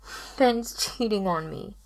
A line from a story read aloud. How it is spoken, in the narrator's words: she said, her voice muffled